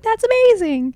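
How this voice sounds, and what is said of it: Imitates enthusiastic studio people. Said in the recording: “my impression of all studio people”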